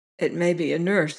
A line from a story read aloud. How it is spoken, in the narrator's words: he muttered